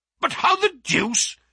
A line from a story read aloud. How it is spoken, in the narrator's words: he gasped